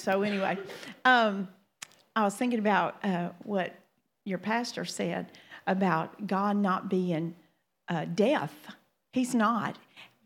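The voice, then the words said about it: Louisiana Southern American accent. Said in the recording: “get used to my accent, because I have one. I am from Louisiana, and I have an accent.”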